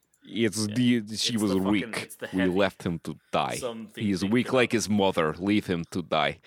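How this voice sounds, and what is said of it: Russell Crowe's exaggerated Russian accent. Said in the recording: “Russell Crowe's accent in this trailer is legitimately the joke accent that I use when I'm impersonating someone from Russia ... that's actually how he talks in this trailer”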